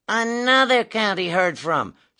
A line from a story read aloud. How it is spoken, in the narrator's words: scoffed one of the doctors indignantly